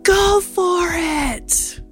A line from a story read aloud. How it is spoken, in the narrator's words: I yelled